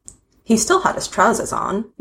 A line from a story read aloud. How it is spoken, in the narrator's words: Yanto answered calmly